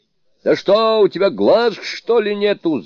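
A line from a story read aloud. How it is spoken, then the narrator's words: Yelling. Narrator (Russian): заорал Суню-кун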